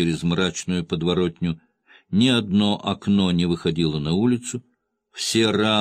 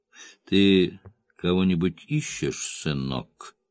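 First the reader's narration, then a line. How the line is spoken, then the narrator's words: Through clenched teeth. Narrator (Russian): процедил он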